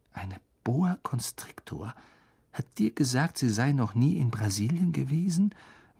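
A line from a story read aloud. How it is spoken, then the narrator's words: Quiet repeating. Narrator (German): wiederholte Ron mit leiser Stimme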